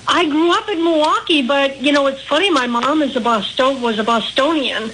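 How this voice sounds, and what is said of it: Midwestern Milwaukee accent. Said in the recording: “I'm picking up on the accent. Would it be Midwest, right around Ohio, Milwaukee, in that area?... people do pick up the Milwaukee accent”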